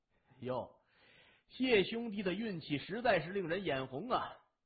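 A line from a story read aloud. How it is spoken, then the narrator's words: Smiling, cheerful. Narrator (Chinese): 向问天笑容满面的说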